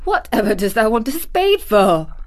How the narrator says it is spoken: asked Martha, laughing

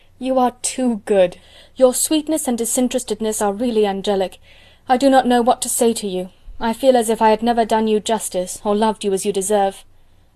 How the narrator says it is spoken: exclaimed Elizabeth

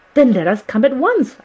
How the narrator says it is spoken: I cried

